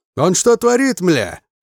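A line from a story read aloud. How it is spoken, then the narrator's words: Yelling. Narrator (Russian): орал Колесник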